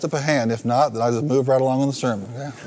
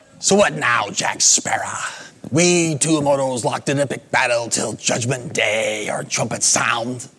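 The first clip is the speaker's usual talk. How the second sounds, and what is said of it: Imitation of pirate character Barbossa. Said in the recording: “my Barbosa imitation”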